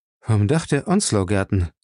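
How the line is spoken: Calm. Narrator (German): sagte Dick ruhig

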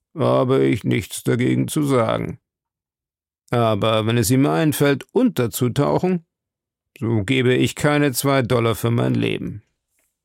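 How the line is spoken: Grumbling. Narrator (German): brummte Ned Land

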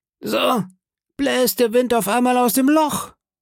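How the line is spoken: Calling out. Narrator (German): rief Long John

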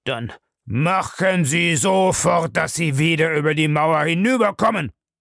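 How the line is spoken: Gruff. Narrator (German): sagte barsch

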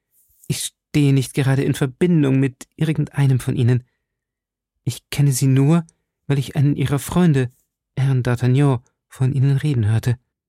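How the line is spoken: Stammering. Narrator (German): stammelte Milady

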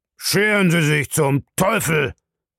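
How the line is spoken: Bellowed. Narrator (German): brüllte Bellamy

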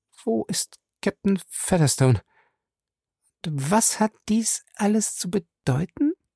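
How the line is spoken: Stammering. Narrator (German): sagte stotternd

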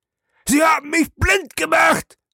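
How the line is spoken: Bellowed. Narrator (German): brüllte er

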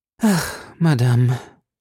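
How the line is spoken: Melancholy sigh. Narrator (German): seufzte Porthos mit seinem schwermütigsten Ton

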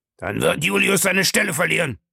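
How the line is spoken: Angry shout. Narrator (German): schrie Smith wütend

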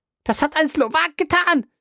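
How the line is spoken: Women shrieking. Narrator (German): die Weiber kreischten

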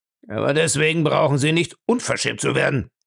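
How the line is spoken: Grumbling old man. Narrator (German): brummte der Alte, dem es scheinbar wieder leid tat, dass er ebenso liebenswürdig gewesen war

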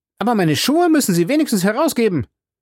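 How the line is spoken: Indignant cry. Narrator (German): rief Passepartout mit Entrüstung

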